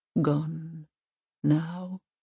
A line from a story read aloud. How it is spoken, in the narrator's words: he says gently